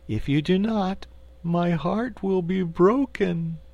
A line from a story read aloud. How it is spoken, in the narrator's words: declared the cookie cook in a sorrowful voice